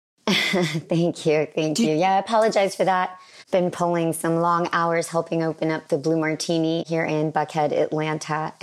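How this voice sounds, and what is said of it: Hoarse, raspy voice. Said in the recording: “a little bit of a hoarse voice... I do have a hoarse voice today... raspy”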